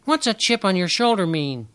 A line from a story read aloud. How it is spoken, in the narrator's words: Dragonfly had piped up and asked